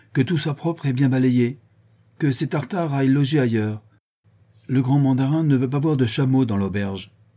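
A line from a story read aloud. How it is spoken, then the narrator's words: Curt, haughty exclamation. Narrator (French): s'écria-t-il d'un ton bref et plein de morgue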